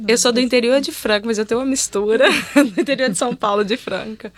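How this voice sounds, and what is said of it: Brazilian Minas Gerais accent. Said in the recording (Portuguese): “eu tenho um sotaque bem mineirinho mesmo ... aquela moça que fala engraçado”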